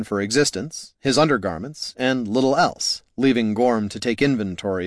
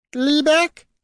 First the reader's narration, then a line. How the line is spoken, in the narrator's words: it chirped